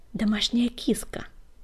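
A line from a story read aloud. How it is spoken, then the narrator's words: Hiss. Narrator (Russian): прошипела Пепелюшка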